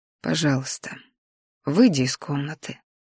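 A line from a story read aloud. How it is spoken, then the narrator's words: Quiet repetition. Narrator (Russian): тихо повторил Дэйн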